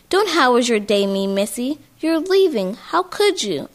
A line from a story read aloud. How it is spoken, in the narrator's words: cried